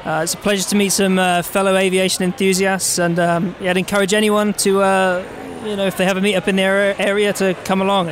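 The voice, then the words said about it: Norwich English accent. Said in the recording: “recognize this accent that this gentleman has. He is from Norwich?”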